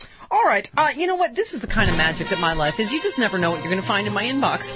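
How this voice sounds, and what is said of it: Usual voice. Nothing is said of it.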